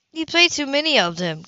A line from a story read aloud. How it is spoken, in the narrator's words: Cammy exclaimed